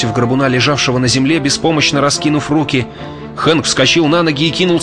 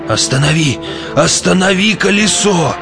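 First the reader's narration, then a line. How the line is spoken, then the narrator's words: Distant moaning voice. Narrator (Russian): Стонал голос где-то высоко в ночи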